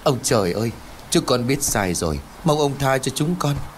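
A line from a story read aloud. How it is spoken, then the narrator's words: Frightened pleading. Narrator (Vietnamese): Bà Bưởi sợ hãi nảy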